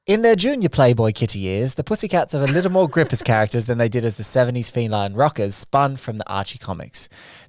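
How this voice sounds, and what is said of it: Put-on British accent. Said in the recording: “I'm doing it in a British accent. Just to pep it up a little bit.”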